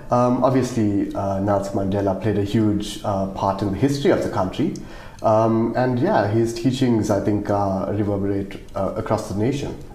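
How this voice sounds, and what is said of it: South African Indian accent. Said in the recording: “I'm South African, if you can't tell by my accent... I'm South African Indian”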